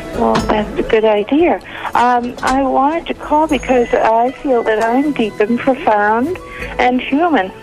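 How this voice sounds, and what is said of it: New England twang. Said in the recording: “I meant a New England twang.”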